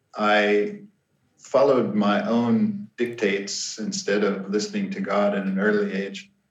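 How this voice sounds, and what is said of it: Speaks with a noticeable accent. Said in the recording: “we can hear that you have an accent”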